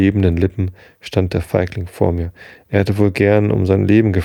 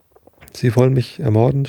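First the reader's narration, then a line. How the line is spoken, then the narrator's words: Stammered. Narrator (German): stammelte er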